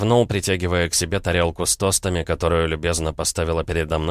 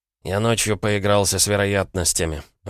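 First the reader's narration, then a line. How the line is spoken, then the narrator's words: Sigh. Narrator (Russian): вздохнул Егор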